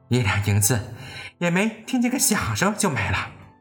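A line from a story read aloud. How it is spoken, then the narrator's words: Sighing. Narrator (Chinese): 刘姥姥叹道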